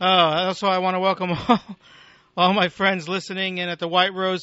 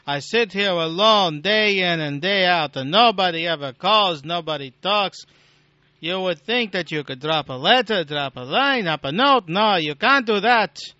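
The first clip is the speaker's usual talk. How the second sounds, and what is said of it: Put-on Jewish accent. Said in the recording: “this bad Jewish accent”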